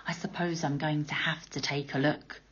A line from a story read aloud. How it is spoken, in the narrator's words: He muttered